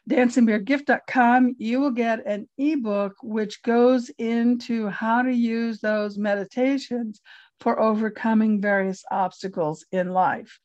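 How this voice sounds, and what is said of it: Strained, hoarse, fading voice. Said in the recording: “I'm losing my voice, sorry.”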